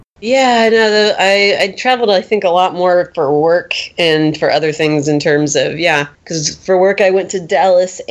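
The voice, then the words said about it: Raspy, recovering voice like a smoker. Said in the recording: “in-between period when you lose your voice to when you regain it ... it sounds like you smoked cigarettes, like 5 packs a day for like 14 years ... Now it just sounds like I smoked cigarettes forever.”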